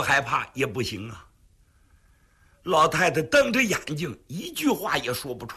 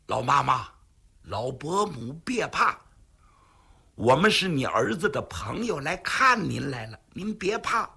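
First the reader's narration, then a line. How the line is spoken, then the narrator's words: Hushed voice. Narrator (Chinese): 为了不叫老太太害怕，云瑞尽量压低了声音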